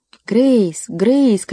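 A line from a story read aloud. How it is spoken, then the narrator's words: Calling loudly. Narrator (Russian): кричала Мэри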